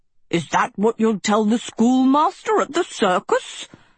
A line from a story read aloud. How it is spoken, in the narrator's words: Professor Sheeks thundered